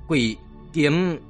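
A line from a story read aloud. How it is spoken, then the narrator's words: Stammering old man. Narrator (Vietnamese): Lão miệng ấp úng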